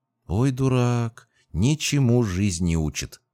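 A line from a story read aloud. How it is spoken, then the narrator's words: Drawling. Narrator (Russian): протянула Сирин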